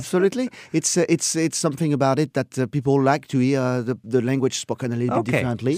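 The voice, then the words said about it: French accent. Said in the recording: “I hate my French accent.”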